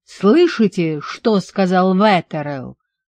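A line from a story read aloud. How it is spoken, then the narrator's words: Roar. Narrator (Russian): взревел Гарри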